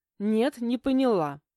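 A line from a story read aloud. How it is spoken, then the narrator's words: Snapping. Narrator (Russian): огрызнулась я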